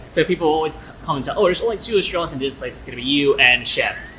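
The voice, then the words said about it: Near-Australian accent. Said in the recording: “people tend to think that I'm also Australian ... You got the accent, yeah, almost”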